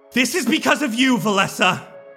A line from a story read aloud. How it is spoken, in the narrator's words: she yells